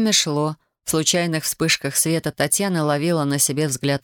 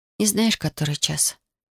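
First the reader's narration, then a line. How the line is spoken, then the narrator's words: Quiet question. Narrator (Russian): тихо спросила Татьяна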